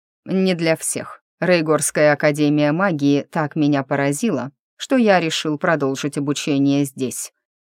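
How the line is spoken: Plain. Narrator (Russian): ответил Дивный

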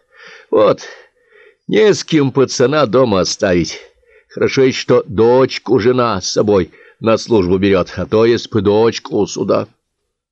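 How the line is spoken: Heavy sigh. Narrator (Russian): Крученый неожиданно тяжело вздохнул и сказал

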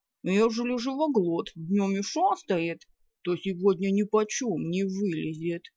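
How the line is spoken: Grumbling with full mouth. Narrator (Russian): проворчал Кузьмай с набитым ртом

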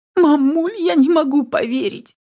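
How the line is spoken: Sobbing. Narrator (Russian): всхлипывала

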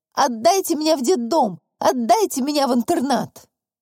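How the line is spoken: Hysterical nonstop screaming. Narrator (Russian): в истерике вопила, как заведенная

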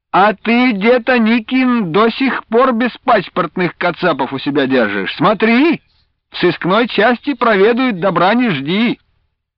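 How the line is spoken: Sarcastic shout. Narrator (Russian): один из повстречавшихся верховых, сын богатея Кумшацкого, язвительно крикнул

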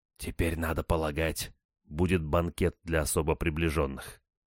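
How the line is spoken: Whisper in ear. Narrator (Russian): шепнул мне на ухо капитан

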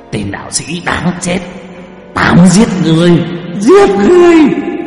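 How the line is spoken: Demonic screaming. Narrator (Vietnamese): Ác quỷ gào thét

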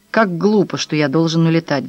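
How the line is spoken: Sighing. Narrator (Russian): вздохнул Филипп

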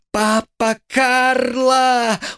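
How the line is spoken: Quick squeak. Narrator (Russian): успел только пискнуть Буратино

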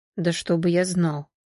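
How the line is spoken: Quiet reply. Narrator (Russian): также негромко ответил Сергей

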